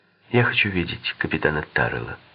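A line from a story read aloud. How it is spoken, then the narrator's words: Calm. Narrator (Russian): спокойно проговорила она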